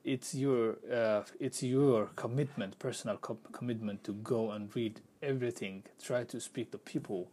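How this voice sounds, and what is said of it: Speaker's own accent. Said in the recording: “Now I have accent.”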